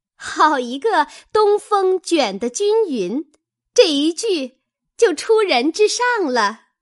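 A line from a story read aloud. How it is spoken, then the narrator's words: Laughing. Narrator (Chinese): 湘云先笑道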